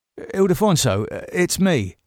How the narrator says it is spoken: said David, needlessly

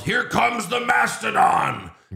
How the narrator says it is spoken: Vince yelled

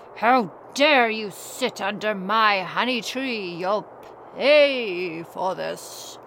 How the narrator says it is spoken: a bear growled

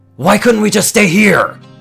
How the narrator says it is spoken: He screams out

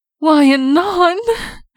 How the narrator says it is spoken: Celestia cried with a startled gasp

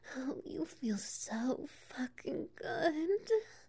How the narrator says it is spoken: she cries out, cock brushing against her G-spot

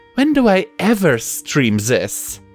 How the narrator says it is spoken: Pip scoffed and pleaded

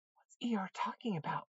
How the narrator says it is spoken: Piglet whispered to Pooh

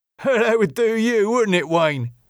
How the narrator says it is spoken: said Jimmy with a chuckle

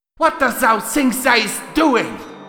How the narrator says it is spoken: Princess Luna shouted in rage

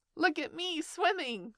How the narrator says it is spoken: squeaked Roo from the middle of his pool

